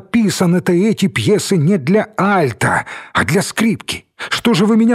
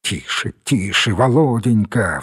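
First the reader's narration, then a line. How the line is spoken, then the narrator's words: Pleading whisper. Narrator (Russian): взмолился шепотом Мелехин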